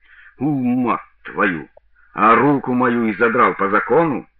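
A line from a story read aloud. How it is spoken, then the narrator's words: Angry retort. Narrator (Russian): бросил сержант зло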